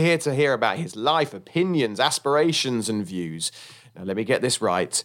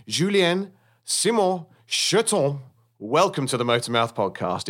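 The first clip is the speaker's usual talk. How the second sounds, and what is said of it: Put-on French accent. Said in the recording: “in my best French accent ... well done for your French accent. Very good.”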